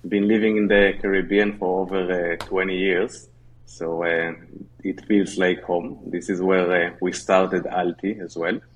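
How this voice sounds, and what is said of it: Israeli English accent. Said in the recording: “originally from Israel, as everybody can hear on the accent.”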